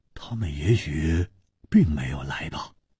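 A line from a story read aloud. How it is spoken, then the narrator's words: Low deep voice. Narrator (Chinese): 黄鲁直沉声说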